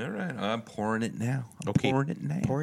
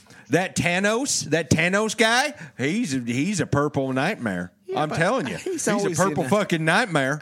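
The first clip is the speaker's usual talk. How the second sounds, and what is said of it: Put-on redneck accent. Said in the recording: “in this kind of voice ... I'm doing redneck movie reviews from here on out.”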